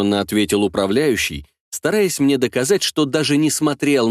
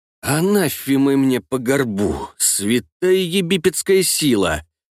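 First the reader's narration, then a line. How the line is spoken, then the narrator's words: Grumbling. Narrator (Russian): заворчал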